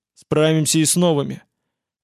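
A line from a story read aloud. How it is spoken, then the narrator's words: Growl. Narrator (Russian): Владимир прорычал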